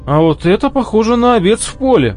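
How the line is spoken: Excited interruption. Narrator (Russian): взволнованно прервал его Дол

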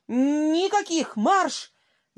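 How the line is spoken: Wheezing shout. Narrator (Russian): закричал с каким-то даже свистом в горле фрачный человек

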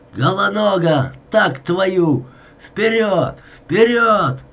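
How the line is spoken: Hoarse strained shout. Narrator (Russian): Климченко закричал сорванным, осипшим голосом

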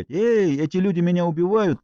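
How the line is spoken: Wanted to shout. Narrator (Russian): Я хотел закричать

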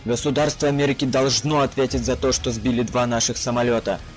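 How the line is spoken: Angry spluttering bark. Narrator (Russian): Зло гаркнуло, разбрызгивая слюну мой братишка

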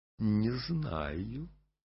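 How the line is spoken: Mysterious smiling young woman. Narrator (Russian): барышня, загадочно улыбаясь, говорила

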